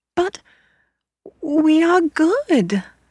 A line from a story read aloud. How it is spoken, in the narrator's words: they cried, thinking she must have misunderstood them